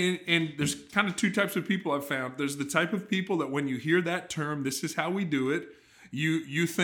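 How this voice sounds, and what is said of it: Usual voice. Nothing is said of it.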